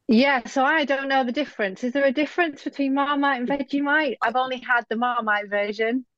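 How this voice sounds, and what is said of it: British accent. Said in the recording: “fantastic British accent”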